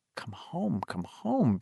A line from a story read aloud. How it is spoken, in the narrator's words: Beverly said softly